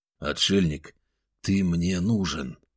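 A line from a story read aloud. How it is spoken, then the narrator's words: Low voice. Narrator (Russian): вполголоса проговорил я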